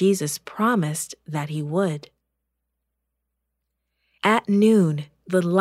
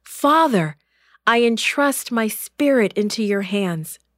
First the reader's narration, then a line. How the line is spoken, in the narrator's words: Jesus cried